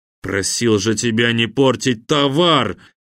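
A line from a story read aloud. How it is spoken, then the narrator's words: Menacing. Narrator (Russian): грозно надвинулся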